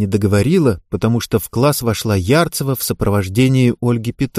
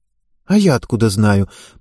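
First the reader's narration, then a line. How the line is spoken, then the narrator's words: Breathless exhale during exercise. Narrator (Russian): прерывисто выдохнула Ева, делая наклоны вперед всем корпусом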